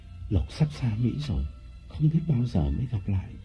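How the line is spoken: Breathy intimate whisper. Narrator (Vietnamese): Lộc nói qua hơi thở

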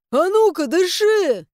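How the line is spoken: Frightened barking shout. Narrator (Russian): Рявкую я испуганно

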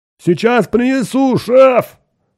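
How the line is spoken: Robot shouting from afar. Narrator (Russian): крикнул робот уже издалека

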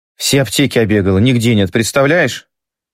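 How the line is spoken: Rapid flustered chatter. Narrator (Russian): тараторит раскрасневшаяся Танюша

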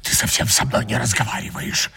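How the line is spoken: Whispered. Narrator (Russian): шепнула она

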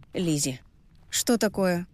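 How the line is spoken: Dry question over phone. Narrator (Russian): сухо спросила я в трубку

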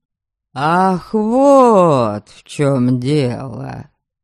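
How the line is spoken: Drawl. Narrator (Russian): протянул Харальд

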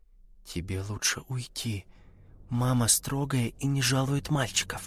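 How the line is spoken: Whisper. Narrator (Russian): Даша сказала шепотом

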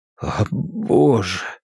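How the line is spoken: Hoarse, trembling voice. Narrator (Russian): сказал Луис хриплым, дрожащим голосом, который даже не признал за свой

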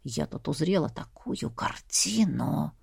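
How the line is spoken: Whisper. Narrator (Russian): Она понизила голос до шепота

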